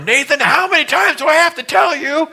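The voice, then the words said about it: Yelling at someone. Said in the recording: “yelling at my son, Nathan ... my voice went from”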